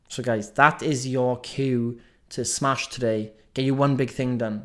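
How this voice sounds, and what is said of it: Welsh accent. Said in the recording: “listening to this Welsh accent every day”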